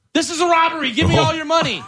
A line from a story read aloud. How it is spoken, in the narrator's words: a woman in Hernando County, Florida, shouted